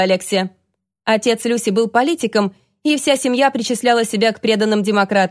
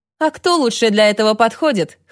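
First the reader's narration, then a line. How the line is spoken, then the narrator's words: Wry snort. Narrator (Russian): хмыкнул Тедди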